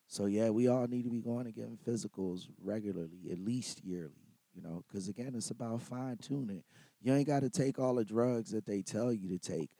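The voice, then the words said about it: Hoarse, strained voice. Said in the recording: “I'm a little hoarse. ... So I lost my voice ... you done lost your damn voice”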